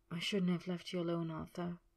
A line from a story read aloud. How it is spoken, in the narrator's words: he murmured against his lips